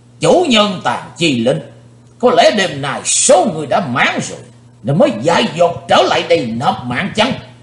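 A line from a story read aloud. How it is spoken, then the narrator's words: Old man's sudden roar. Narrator (Vietnamese): Lão nhân gầy ốm bỗng gầm to lên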